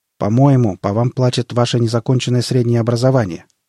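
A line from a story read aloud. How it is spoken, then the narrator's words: Plain. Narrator (Russian): ответил Анатолий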